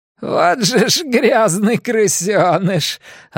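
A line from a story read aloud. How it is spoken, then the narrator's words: Shrill laughing woman. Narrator (Russian): Она зашлась визгливым смехом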